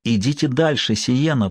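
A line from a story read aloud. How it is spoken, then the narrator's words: Impulsive whisper. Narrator (Russian): прошептал он, повинуясь внезапному порыву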